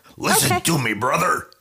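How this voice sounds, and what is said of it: Imitates a pro wrestler's voice. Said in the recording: “imitating Hulk Hogan”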